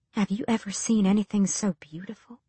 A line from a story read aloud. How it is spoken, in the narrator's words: Ansel whispered